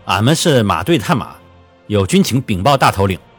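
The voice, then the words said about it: Northwestern Chinese accent. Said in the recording (Chinese): “用西北的口音”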